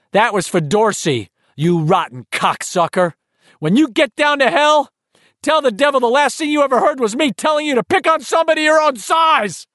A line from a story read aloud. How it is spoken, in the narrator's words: scream